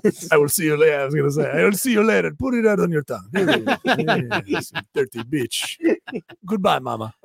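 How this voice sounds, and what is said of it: Put-on French accent. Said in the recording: “Solid French accent ... It's pretty good ... I lost it at the end”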